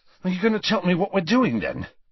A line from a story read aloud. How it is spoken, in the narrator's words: asked Ron, panting slightly